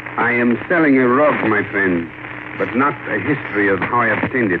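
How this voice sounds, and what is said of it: Put-on international accent. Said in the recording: “as I put on my best international accent”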